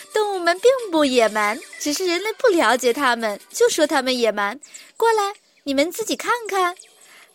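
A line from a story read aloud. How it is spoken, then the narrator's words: Giggling. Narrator (Chinese): 美琳达一边咯咯笑着，一边继续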